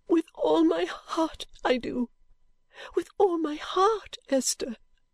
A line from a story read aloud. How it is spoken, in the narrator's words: sobbed out